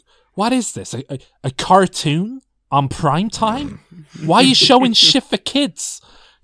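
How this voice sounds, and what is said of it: Imitates another person's voice. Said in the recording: “a good Bruce Willis impression”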